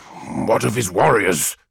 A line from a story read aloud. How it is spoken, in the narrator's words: growled Falkus Kyber